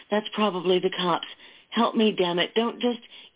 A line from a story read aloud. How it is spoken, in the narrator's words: she cried